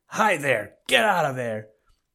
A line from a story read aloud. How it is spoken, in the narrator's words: he heard a shrill, angry voice shout